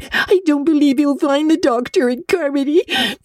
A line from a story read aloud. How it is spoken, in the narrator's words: sobbed Diana